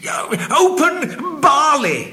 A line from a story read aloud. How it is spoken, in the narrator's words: he cried